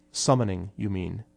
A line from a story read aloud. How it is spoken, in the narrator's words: Esper said quietly